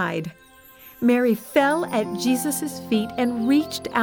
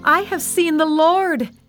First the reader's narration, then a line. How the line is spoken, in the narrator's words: she shouted to the disciples